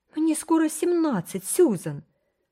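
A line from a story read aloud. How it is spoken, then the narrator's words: Almost angry exclamation. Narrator (Russian): воскликнула Рила почти с гневом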